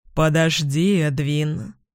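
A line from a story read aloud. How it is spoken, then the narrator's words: Deep resonant voice. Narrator (Russian): глубоким и звучным голосом произнес риспи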